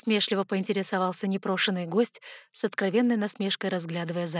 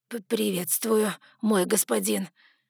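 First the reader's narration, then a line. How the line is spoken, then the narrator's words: Forced, grudging. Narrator (Russian): Выдавил из себя Эрнакте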